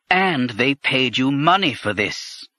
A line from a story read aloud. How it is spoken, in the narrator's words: Kuri said bitterly